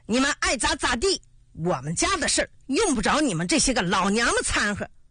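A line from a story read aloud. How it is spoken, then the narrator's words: Shouting. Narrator (Chinese): 严大头喊道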